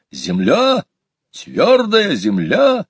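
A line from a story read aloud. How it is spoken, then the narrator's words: Joyful shout. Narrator (Russian): Петя радостно, как настоящий путешественник, крикнул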